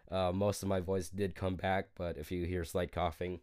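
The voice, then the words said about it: Raspy, slightly hoarse voice. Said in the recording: “a little bit under the weather ... hear it in my voice, it's kind of it's kind of raspy right now”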